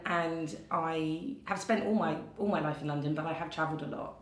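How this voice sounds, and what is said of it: English London accent. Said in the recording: “I can hear your accent ... I'm English. I'm from London”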